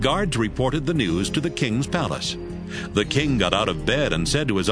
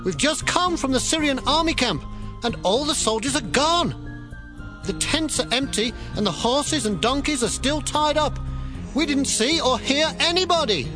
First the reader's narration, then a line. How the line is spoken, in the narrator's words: shouted up to the guards at the gate